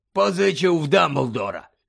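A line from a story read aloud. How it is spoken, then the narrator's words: Hoarse rasp. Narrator (Ukrainian): прохрипів Муді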